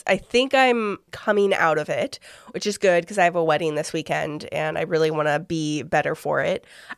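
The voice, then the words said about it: Sick voice from a cold. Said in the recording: “I don't know if you can hear in my voice, but I have been very sick the last few days... I think it's just a cold.”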